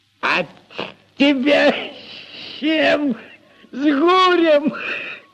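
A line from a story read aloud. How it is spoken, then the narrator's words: Roaring laughter. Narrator (Russian): Прохор захохотал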